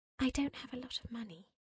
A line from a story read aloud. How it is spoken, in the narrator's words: The girl whispered